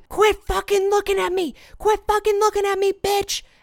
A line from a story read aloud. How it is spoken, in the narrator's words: a guy start yelling